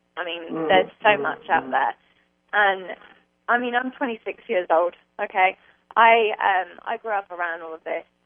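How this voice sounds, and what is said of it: English accent. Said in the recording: “why do I have an English accent? That's because my mother was English, and I grew up in England.”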